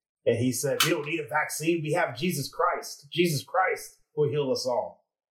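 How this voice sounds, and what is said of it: Preacher-style voice. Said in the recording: “that was a pretty good preacher voice there”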